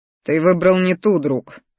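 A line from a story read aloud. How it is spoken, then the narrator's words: Wry snort. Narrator (Russian): хмыкнул я своему ящеру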